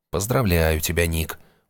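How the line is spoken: Glum, to himself. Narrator (Russian): уныло сказал он себе

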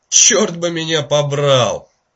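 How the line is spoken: Exclamation. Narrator (Russian): воскликнул Паркер

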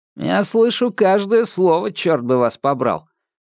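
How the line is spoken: Loud. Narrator (Russian): громко произнес Ньют

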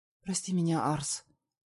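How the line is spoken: Firm whisper. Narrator (Russian): Шепотом, но очень твердо говорит моя Лёля

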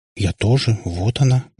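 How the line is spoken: Mumbled. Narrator (Russian): пробормотала Катя

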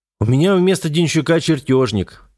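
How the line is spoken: Irritated. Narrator (Russian): ответил инженер раздраженно

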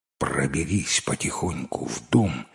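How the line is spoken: Dog's whisper. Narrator (Russian): шепнула собака

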